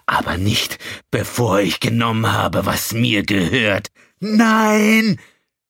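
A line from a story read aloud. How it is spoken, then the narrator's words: Shouting over rising storm. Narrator (German): schrie eine andere Stimme durch den ansteigenden Sturm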